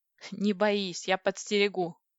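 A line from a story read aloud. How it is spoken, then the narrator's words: Giggle. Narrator (Russian): хихикнула я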